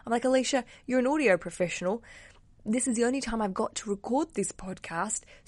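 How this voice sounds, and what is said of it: Congested voice from a cold. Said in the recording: “I have a cold today and I'm hearing it going, I sound like a bit like a man.”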